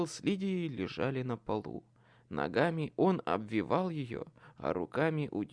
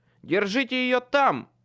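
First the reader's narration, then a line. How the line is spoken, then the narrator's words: Barked command. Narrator (Russian): рявкнул я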